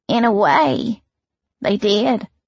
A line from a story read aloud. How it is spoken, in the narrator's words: Kiana said weakly